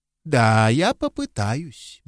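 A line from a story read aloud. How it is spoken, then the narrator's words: Soft reply. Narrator (Russian): мягко ответил Браун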